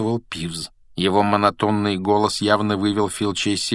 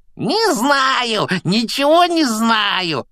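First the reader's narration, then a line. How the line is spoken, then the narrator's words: Joyful yelling. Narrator (Russian): радостно заорал Пивз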